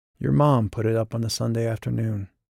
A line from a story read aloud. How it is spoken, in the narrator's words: murmured